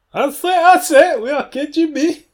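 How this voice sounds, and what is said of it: Russian accent mixed with Foghorn Leghorn. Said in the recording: “the new Foghorn Leghorn ... Like a Russian accent trying to like blend in America ... like Foghorn Leghorn, like crazy chicken. It's just Borat at this point.”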